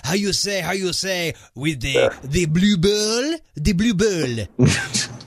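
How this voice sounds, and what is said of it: Put-on French Canadian accent. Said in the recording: “doing this entire episode with a French Canadian accent ... I know how much he loves my accents.”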